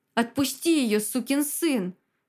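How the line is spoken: Roared. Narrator (Russian): взревел Захар

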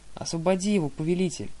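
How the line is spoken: Exclaimed. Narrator (Russian): воскликнул один из морских коней

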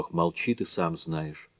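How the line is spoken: Barely audible sigh. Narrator (Russian): Она ответила так тихо, словно то был чуть слышный вздох

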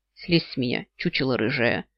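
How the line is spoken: Grumbling. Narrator (Russian): проворчала я

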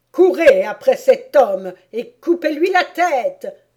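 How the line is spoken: Queen's sudden exclamation. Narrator (French): s'écria soudain la reine

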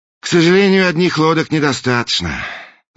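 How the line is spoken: Sigh. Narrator (Russian): вздохнул принц

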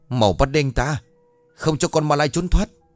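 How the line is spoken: Villagers shouting in unison. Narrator (Vietnamese): Dân làng đồng thanh hét lớn

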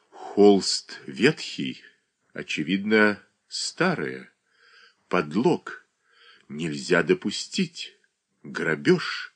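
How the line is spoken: Young man whispering. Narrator (Russian): шептал молодой человек

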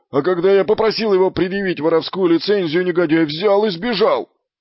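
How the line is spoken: Outraged wail. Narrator (Russian): завопил Фланнель

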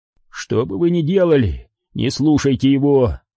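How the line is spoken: Moaning. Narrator (Russian): простонал Куай-Гон

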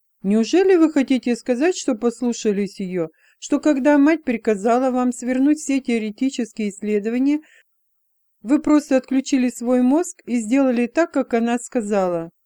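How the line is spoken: Giggling. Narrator (Russian): Элла хихикнула

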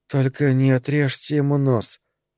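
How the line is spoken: Slurred mumble. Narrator (Russian): пробормотать она заплетающимся языком

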